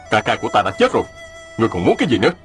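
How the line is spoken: Angry. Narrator (Vietnamese): Mạnh Đào giận dữ nói

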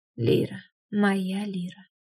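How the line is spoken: Hot breathy whisper. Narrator (Russian): Шепот Деймоса обжигал кожу горячим дыханием

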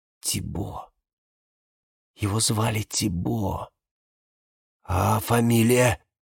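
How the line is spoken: Whisper. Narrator (Russian): Валериана прошептала

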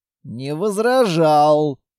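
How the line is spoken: Grumbled. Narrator (Russian): проворчал Петрович

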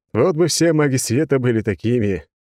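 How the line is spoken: Sad laugh, king. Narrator (Russian): король рассмеялся, но как-то грустно

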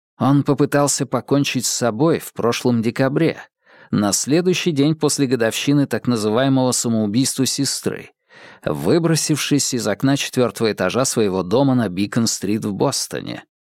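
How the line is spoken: Plain. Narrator (Russian): сказал Шерлок Холмс

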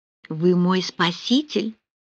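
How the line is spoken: Grateful whisper. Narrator (Russian): с благодарностью прошептала

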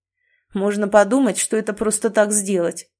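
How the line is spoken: Grumbling. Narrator (Russian): проворчал Майкл

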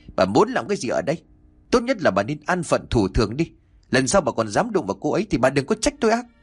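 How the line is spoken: Furious shout. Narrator (Vietnamese): ông Chánh giận dữ mà quát

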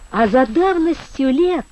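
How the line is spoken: Sudden cheerful. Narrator (Russian): вдруг весело сказал Крень

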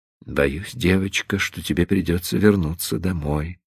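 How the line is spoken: Whisper. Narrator (Russian): прошептал

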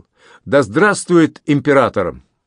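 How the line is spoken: Loud addition. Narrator (Russian): Андрей громко добавил

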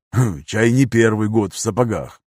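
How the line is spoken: Smirking grunt. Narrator (Russian): хмыкнул

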